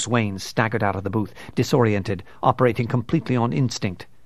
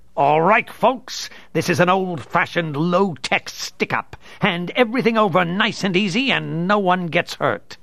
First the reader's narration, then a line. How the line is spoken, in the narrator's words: Two-Face bellowed